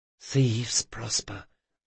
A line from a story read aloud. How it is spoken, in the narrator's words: the others whispered